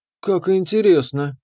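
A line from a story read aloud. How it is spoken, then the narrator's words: Purred. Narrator (Russian): промурлыкала Мириэль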